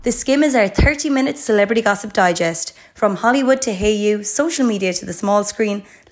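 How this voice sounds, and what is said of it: Hoarse voice. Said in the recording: “I sound quite hoarse. I lost my voice on Friday. It's only starting to come back now”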